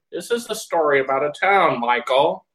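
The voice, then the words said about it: Imitates another person's narrator voice. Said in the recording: “If we could get William Daniels. ... with William Daniels as the narrator ... that impression”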